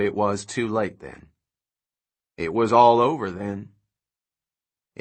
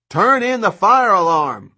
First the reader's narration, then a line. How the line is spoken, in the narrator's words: Grimm shouted back